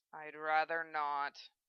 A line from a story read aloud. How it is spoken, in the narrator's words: Zell muttered